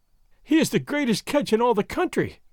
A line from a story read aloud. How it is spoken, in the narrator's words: Doña Catalina was wailing